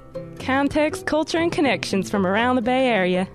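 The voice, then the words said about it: Put-on Texas accent. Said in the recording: “in a Texas accent ... That was just excellent ... It was a little bit flawed”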